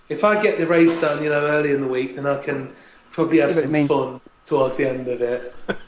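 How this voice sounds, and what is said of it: Imitates thick northern English accent. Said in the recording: “in your northern accent ... My northern accent, really thick northern accent.”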